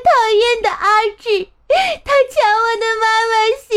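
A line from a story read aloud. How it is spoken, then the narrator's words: Crying. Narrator (Chinese): 一边哭着说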